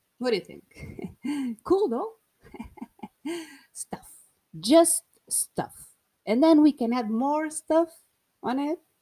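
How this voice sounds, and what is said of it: Portuguese accent speaking English. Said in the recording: “this beautiful accent. Also a beautiful accent ... I will express myself in English from Portugal”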